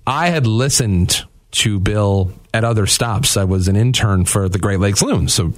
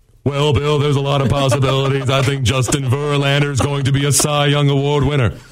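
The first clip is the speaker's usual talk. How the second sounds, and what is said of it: Impression of Bill Simonson. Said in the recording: “my Bill Simonson impression”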